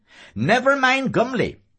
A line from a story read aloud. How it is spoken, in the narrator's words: Miles Crawford cried angrily